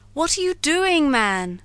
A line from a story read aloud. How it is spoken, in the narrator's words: cried Montgomery